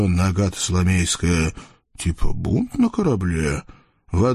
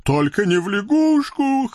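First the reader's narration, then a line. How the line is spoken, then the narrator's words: Pleading. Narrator (Russian): хряк взмолился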